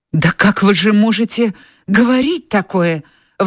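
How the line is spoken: Hurt, tearful exclamation. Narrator (Russian): воскликнула Скарлетт, глубоко уязвленная, чувствуя прихлынувшие глазам слезы

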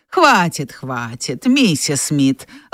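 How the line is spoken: Gentle interruption. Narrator (Russian): ласково прервал ее супруг

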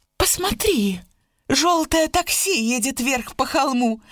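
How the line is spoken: Shouted. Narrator (Russian): крикнула Сьюзан

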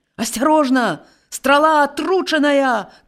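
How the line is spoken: Shouted warning. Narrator (Belarusian): крыкнуў Геракл

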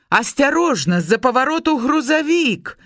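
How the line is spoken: Sudden shout, male stranger. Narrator (Belarusian): раптам крыкнуў выпадковы Ларысін спадарожнік

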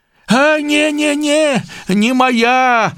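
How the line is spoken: Shouted. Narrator (Belarusian): закрычаў бядняк

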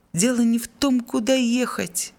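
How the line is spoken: Exasperated exclamation. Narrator (Russian): воскликнул Жиль, окончательно выходя из себя

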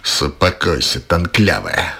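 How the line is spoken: Roared. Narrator (Belarusian): рыкнул

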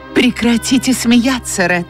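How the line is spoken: Exclamation. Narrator (Russian): воскликнула Скарлетт

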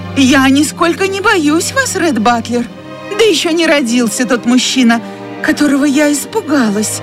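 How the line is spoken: Annoyed exclamation, trembling voice. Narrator (Russian): воскликнула она, досадуя на себя за то, что голос у нее так же предательски дрожит, как и руки

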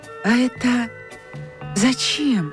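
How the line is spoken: Dejected question. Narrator (Russian): спросила Нюра упавшим голосом

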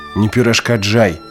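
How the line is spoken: Roaring. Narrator (Belarusian): раўнула медведзіня

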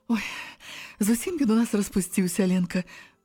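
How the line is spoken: Woman sighing. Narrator (Belarusian): уздыхнула Ірына

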